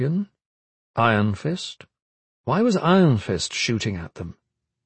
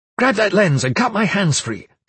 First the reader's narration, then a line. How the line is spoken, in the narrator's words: Karis barked